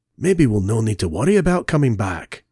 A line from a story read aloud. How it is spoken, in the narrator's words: Jamie whispered to Zoe